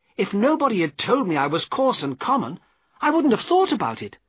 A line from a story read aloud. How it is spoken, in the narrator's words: continued crossly